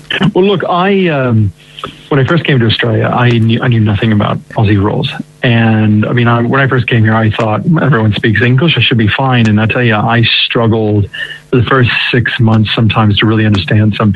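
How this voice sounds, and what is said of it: American accent. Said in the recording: “your American accent”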